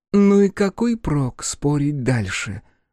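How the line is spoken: Sighing. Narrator (Russian): Джия вздохнула

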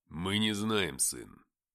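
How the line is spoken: Cold reply, father. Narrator (Russian): холодным голосом ответил отец

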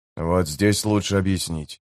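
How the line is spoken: Quiet. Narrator (Russian): тихо проговорил Гэммет

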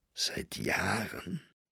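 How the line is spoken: Muttering on. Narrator (German): er murmelte weiter

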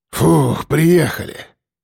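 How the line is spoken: Relieved exhale. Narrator (Russian): выдохнул шеф

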